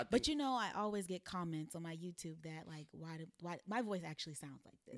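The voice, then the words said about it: Quiet, soothing Southern-accented voice. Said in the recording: “You do have a very quiet Storm voice. ... Like it's just Southern. ... You hear a Southern accent?”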